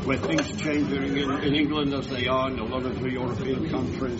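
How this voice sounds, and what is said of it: English accent from Manchester. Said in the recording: “You have an accent... Where's that accent from?... Originally from England... from Manchester.”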